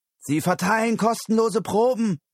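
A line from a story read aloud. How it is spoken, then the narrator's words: Sudden call. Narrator (German): rief plötzlich jemand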